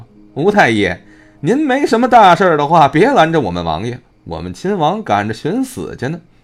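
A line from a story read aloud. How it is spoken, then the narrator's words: Giggling mockingly, young eunuch. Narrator (Chinese): 一名小太监嬉笑道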